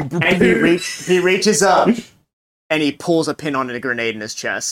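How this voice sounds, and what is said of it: Usual voice. Nothing is said of it.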